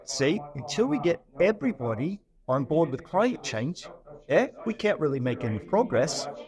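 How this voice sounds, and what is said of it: Poor put-on New Zealand accent. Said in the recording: “pardon my really terrible New Zealand accent”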